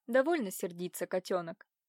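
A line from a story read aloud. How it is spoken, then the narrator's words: Sudden tender cooing. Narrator (Russian): Вдруг ласково проворковал он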